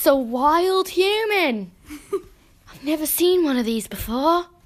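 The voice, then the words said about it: Jumbled American-Australian-British put-on accent. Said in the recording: “what is this accent? ... It's like an American married an Australian, and then that kid married a British person ... It's like the kid hit their head and is not sure where they're from ... They're a European.”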